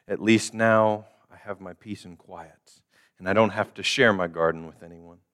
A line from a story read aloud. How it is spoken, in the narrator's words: sighed the giant